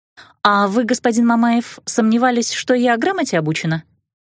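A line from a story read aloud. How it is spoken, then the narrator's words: Sarcastic question. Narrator (Russian): язвительно вопросила я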